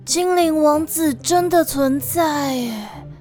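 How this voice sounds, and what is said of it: Dreamy, dazed voice. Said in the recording (Chinese): “用像在做梦的声音说”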